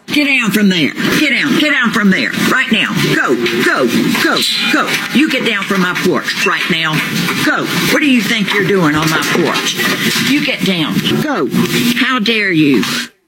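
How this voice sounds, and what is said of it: Stern scolding teacher voice. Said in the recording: “teacher voice”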